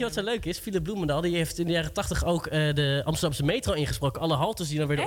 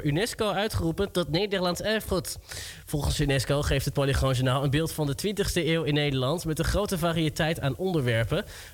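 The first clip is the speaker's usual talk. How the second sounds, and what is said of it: Old Polygoon newsreel announcer voice. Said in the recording (Dutch): “Een huisgenoot van mij kan dit dus ook heel goed. Ik snap niet hoe je zo'n accent kan.”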